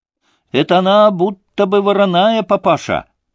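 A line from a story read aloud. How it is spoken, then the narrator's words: Boy shouting. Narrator (Russian): прокричал мальчик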